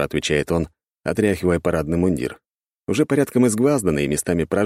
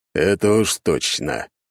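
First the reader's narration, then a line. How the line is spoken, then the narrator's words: Emperor speaking through teeth. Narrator (Russian): говорит император сквозь зубы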